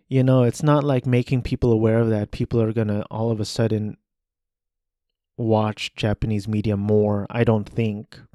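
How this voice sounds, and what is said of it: Flat monotone speaking voice. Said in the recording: “my monotone voice”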